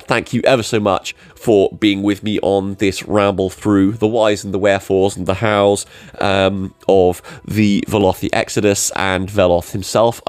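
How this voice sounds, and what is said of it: Strained, worn-out voice. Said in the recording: “My voice is just about holding out long enough for this outro”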